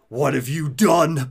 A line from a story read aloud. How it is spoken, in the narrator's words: Batman hisses